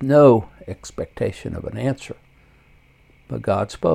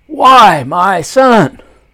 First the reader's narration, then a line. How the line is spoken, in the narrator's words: I yelled